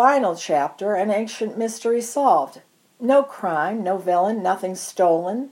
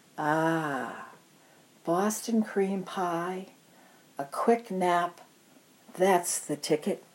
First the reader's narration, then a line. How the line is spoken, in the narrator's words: a lumpy, bumpy, flabby flesh pillow lolled, and it murmured